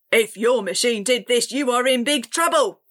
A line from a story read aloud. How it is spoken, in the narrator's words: the commander barked